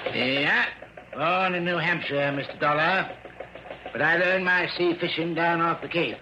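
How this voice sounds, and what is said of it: New England accent. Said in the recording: “Instead of a southern drawl, it was pure New England.”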